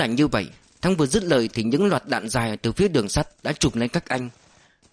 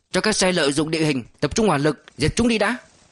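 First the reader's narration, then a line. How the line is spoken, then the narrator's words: Commanding shout. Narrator (Vietnamese): Tham mưu trưởng Từ quát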